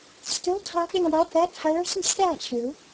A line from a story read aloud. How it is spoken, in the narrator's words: she sighed again